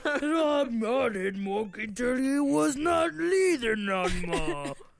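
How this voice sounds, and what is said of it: Impression of the character Lenny. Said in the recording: “That's my Lenny impression.”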